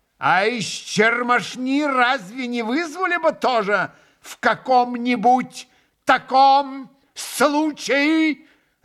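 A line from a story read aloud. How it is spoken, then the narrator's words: Sudden terrible yell. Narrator (Russian): Завопил вдруг Иван Федорович, вдруг ужасно, возвысив голос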